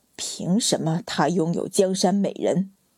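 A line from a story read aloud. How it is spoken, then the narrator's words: Bitter, through gritted teeth. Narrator (Chinese): 淳于昌再也没有一点遮掩，咬牙道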